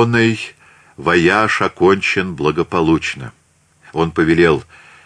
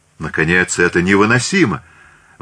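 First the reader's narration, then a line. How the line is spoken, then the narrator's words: Exclaiming. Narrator (Russian): воскликнул герцог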